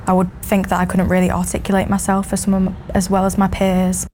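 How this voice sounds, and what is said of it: Northern English Mancunian accent. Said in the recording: “I was Northern and that I didn't speak the Queen's English ... my accent would sound a bit less intellectual ... Mancunian accent”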